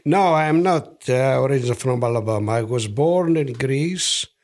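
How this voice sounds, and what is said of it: Foreign accent, not Southern American. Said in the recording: “from your accent, you're not from Alabama, we can tell.”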